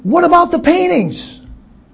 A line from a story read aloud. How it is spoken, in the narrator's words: A dismayed voice shouted